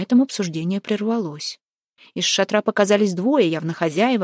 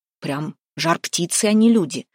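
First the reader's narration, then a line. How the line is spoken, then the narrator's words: Grumble. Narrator (Russian): пробурчал Лупандя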